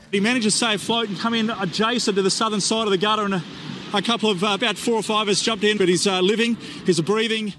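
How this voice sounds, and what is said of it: Australian accent. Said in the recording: “the Australian accent, that's the hillbilly version of the British accent ... if you combine a British accent and a Texas accent, you're going to get the Australian accent”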